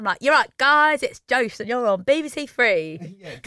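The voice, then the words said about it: Weird put-on Cockney accent. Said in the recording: “I have a weird Cockney accent.”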